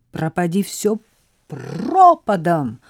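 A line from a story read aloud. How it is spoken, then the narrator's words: Loud shout. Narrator (Russian): громко крикнула она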